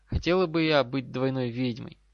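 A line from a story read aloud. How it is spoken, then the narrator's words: Slightly sad. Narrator (Russian): добавила уже немного печально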